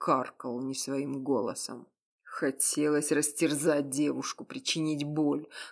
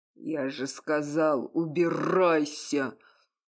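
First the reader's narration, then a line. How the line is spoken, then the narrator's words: Roaring, voice unrecognizable. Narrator (Russian): Взревел не своим голосом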